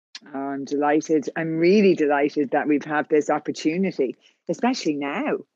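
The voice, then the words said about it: Irish accent. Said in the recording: “I heard your accent. ... I'm from Ireland, as you can tell by the accent.”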